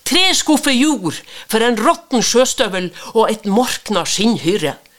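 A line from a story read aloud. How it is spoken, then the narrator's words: Shouting. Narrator (Norwegian): ropte han Jens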